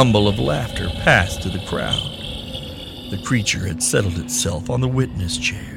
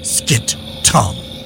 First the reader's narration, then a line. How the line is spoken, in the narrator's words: she snapped